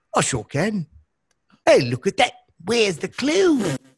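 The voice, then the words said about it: Put-on British accent. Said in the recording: “Can you do a British accent? ... I thought I was right there on the River Thames.”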